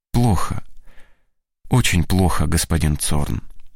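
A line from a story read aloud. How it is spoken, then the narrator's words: Sad reply. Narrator (Russian): отвечает грустно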